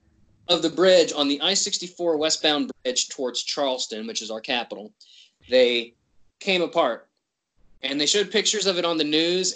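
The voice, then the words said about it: West Virginia accent. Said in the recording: “spoiler alert, I'm from West Virginia... That's my accent.”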